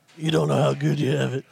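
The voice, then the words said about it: Raspy old man voice. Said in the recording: “your old man voice ... He's been smoking and drinking coffee and raspy voice”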